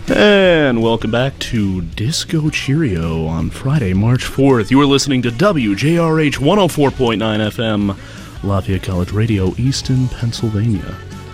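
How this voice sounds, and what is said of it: Polished radio announcer voice. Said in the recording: “Oh, that's a beautiful radio voice right there. ... golden radio voices”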